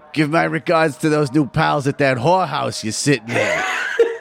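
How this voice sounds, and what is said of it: Looney voice blended with Mo Sislak. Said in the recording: “your version of the Looney there almost sounded like Mo ... that's my Looney right there ... It's your Looney and Mo combo ... it's a little Mo Sislak”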